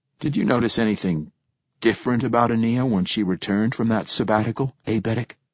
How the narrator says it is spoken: attempting to sound calm, almost disinterested, and failing miserably, I said

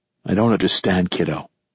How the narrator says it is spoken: I said, my voice softer now

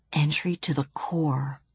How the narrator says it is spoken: whispered Bibi

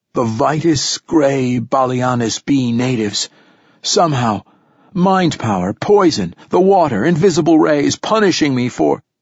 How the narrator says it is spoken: moaned again

